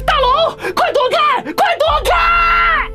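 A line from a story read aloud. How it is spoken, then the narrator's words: Shouting. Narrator (Chinese): 我的呼喊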